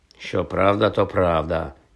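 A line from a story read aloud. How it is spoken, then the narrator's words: Muttering. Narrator (Ukrainian): пробурмотів Джордж Візлі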